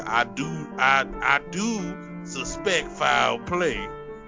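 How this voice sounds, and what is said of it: Exaggerated southern American drawl. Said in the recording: “talking with a southern accent ... why does he sound like Foghorn Leghorn?”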